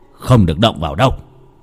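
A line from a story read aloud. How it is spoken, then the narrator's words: Sharp shout. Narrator (Vietnamese): ông thầy quát ngay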